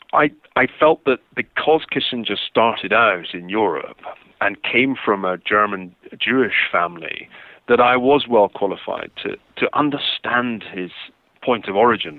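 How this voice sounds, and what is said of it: Non-American accent. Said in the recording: “You can tell from my funny accent that I'm not a Native American”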